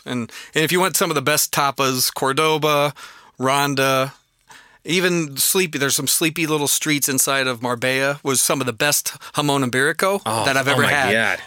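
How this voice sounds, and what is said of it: Wisconsin accent. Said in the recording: “A Wisconsin accent?”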